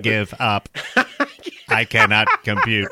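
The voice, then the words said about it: Robotic phone voice. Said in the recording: “Conrad's phone voice ... The voice of Conrad's phone.”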